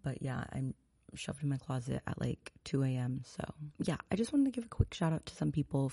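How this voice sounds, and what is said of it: Whispering. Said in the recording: “I'm whispering, and this is a weird ASMR thing”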